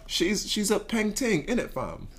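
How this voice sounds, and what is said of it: American attempting British accent. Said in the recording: “I'm gonna try to use a British accent too. ... would give you maybe a six out of ten. ... definitely not the worst that an American has said”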